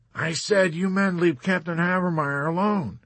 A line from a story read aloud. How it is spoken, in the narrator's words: Captain Cathcart warned them all angrily